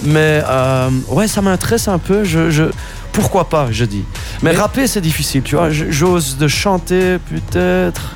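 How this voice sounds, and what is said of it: Non-native accent in French. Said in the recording (French): “Je fais des fautes, hein, comme tu l'entends. Je vais pas masquer mon accent non plus.”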